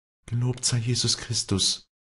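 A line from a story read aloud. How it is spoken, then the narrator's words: Embarrassed stammer. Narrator (German): stammelte Walli verlegen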